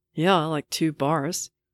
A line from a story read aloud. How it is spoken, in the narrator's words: groans, morosely